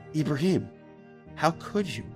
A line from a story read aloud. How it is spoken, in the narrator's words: the girl asked him, in the kindest voice imaginable